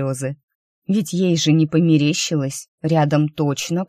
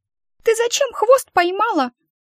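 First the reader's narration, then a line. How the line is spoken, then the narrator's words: Squeaky creature voice. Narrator (Russian): пискнуло это существо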